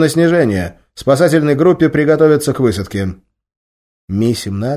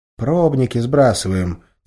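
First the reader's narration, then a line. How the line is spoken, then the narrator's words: Quiet reply. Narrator (Russian): тихо ответил тот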